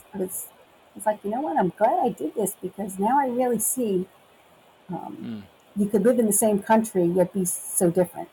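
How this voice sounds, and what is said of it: Speaks with a noticeable accent. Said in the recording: “everybody uh, can hear my accent”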